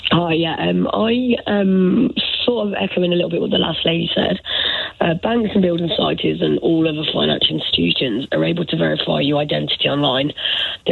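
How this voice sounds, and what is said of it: Hoarse, failing voice. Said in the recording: “Sorry, my voice is gone.”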